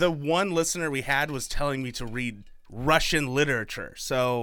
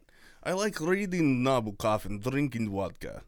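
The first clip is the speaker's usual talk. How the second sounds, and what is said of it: Put-on Russian accent. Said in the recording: “if you use a Russian accent ... I'm terrible at accents.”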